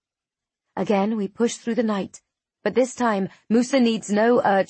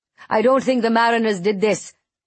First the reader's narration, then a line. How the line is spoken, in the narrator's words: Musa shouts over the roar of the flames